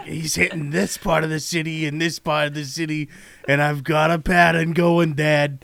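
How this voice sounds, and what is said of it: Gravelly Midwestern smoker-style voice. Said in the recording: “he sounds like a Midwest journalist who smokes six packs a day.”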